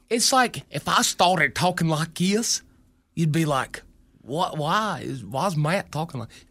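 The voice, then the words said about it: Exaggerated hillbilly voice. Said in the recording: “Because I'm like over embellishing, hillbilly talk or whatever. ... Doing my ex-mother-in-law.”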